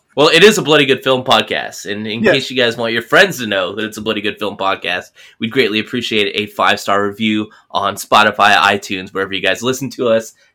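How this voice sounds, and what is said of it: Slick announcer-style podcast voice. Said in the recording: “your podcast voice making the advertising so much more slick”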